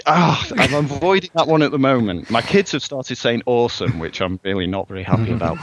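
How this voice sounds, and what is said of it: English accent. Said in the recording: “I have an extra English accent.”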